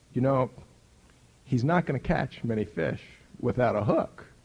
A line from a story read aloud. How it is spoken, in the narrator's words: he warmly, graciously, kindly, with the gracious thoughtfulness, said to me